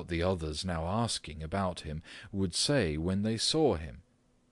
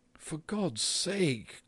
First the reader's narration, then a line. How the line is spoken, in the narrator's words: cried the mother, nearly in tears